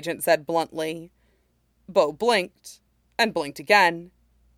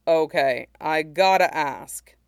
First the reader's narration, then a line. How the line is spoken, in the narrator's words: Bo sighed